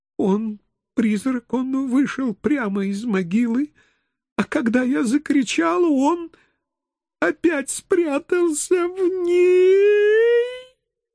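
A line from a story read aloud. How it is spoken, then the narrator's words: Sobbing again. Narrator (Russian): Мадам Дауниссимо вновь зарыдала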